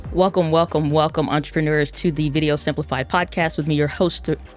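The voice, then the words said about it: Slightly strained, sore-throat voice. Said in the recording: “having a little weird stuff with my throat ... I sound a little weird ... It's a little sore”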